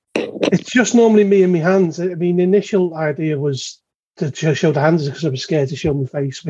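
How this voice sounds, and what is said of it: Merseyside English accent. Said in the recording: “from your accent, that must be located somewhere near the River Mersey.”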